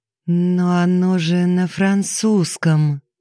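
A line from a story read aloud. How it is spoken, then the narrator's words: Hesitant drawl. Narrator (Russian): неуверенно протянула Алиса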